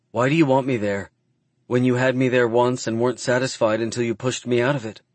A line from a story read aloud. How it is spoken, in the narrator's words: She asks, her voice quiet and sad